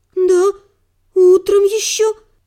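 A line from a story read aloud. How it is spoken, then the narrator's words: Frightened woman's babble. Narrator (Russian): пролепетала, вжавшись в кресло женщина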